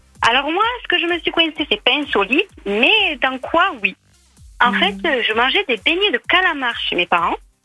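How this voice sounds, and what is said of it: Southern French accent. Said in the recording (French): “quel joli accent... toi, t'as un superbe accent”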